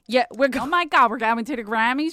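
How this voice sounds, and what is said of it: Strong Philadelphia-area accent. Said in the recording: “You just got so Philadelphia. That fucking sounded like it sounded more Pittsburgh ... Pennsylvania ... That's such a Philadelphia ... accent”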